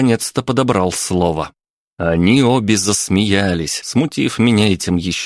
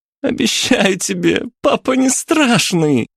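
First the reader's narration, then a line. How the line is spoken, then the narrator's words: Speaking through laughter. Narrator (Russian): сквозь смех проговорила Аня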